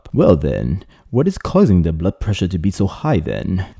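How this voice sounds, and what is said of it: Deliberately bad British accent. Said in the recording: “a terrible English accent ... British accents”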